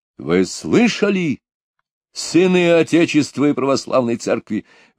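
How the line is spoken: Exclaimed. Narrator (Russian): воскликнул Пугачев

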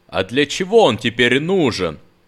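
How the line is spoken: Irritated shout. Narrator (Russian): раздраженно выкрикнул он

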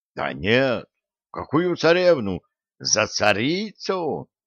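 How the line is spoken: Exclaimed. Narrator (Russian): воскликнул Виталик

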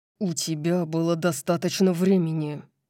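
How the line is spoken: Growled. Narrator (Russian): прорычал

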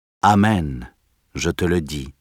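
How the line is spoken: Plain. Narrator (French): lui répondit Jésus

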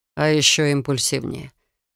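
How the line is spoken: Gloomy reply. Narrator (Russian): мрачно отозвался Рейган

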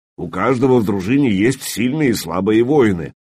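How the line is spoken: Deep bass voice. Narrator (Russian): пробасил Трувор

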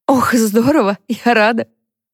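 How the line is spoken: Laughing. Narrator (Russian): рассмеялась Харпер

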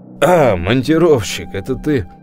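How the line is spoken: Deep, low, slightly hoarse. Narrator (Russian): Голос Краснова был таким же густым и низким, даже чуть с хрипотцой

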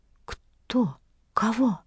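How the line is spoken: Young woman whispering. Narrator (Russian): прошептала молодая женщина

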